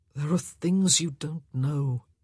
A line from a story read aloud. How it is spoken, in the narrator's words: he said wearily